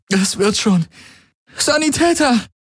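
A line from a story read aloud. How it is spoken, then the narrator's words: Calling out. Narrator (German): rief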